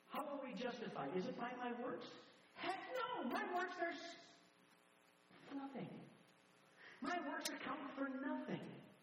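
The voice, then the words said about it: Yelling, loud preaching voice. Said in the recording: “the reason why I'm yelling is because I'm yelling at me”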